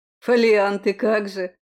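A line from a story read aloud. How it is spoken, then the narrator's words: Snorting. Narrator (Russian): фыркнул Айвол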